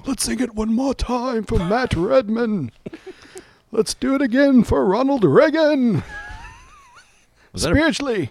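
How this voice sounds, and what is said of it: Weak, wheezy put-on British accent. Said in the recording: “Is that a British accent? ... That was not great. ... It was like if Attenborough had emphysema.”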